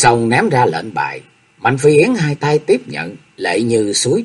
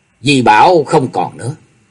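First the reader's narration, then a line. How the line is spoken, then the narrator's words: Cold speech. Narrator (Vietnamese): Diệp Linh Tô lạnh lùng nói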